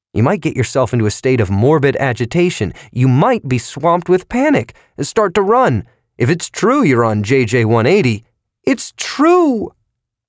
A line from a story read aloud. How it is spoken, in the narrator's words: she said loudly